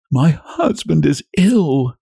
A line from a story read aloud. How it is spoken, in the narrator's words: sobbed out